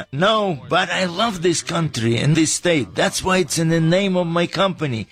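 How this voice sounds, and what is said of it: Speaks with a foreign accent. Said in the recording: “what's up with your accent? We thought you grew up right here in the valley.”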